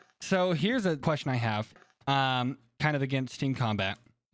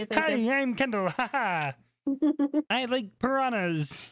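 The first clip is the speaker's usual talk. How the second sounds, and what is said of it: Impression of another speaker. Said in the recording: “That was a really good impression of me. ... I've been practicing, Kendall, just to do an impression of you.”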